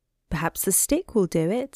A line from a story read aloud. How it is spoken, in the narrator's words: said Dinah Cat